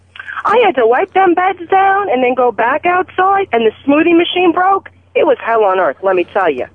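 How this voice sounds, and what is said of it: Thick Long Island accent. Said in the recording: “the worst accent in the United States ... my Long Island accent ... You talk. ... Exactly like that.”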